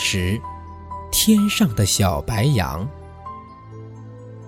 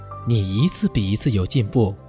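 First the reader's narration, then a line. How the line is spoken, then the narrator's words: Smiling mother. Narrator (Chinese): 燕子妈妈笑了，说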